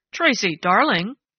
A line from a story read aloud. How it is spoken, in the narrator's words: Judge Marshall corrected, with a chuckle that sounded odd in the tensely silent room